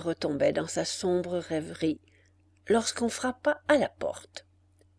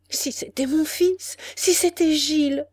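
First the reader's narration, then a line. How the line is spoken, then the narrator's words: Crying out. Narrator (French): s'écria-t-elle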